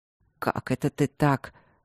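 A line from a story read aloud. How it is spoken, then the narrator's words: Grumbled with displeasure. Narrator (Russian): буркнул барон недовольно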